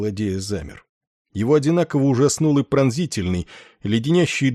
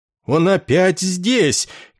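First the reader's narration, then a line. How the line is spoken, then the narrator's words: Frightened delirious yell. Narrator (Russian): как бы заразившись его страхом, заорал пациент, поступивший на лечение за несколько дней до них в горячечном бреду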